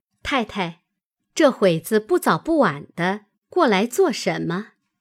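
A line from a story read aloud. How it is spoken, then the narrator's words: Smiling question. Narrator (Chinese): 鸳鸯因笑问道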